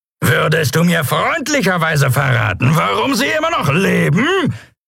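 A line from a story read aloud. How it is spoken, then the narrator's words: Roaring over loud wind. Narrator (German): brüllte er gegen das Tosen des Windes und das Lärmen der Schubdüsen an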